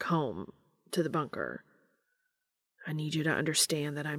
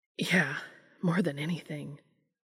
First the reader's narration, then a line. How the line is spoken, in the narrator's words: Dean said breathlessly